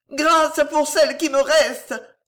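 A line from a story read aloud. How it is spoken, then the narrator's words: Yelled in terror and pain. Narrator (French): vociféra Gillot, ivre d'épouvante et de douleur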